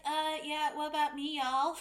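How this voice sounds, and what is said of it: Bad put-on Southern accent. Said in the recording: “That was the worst Southern accent ever”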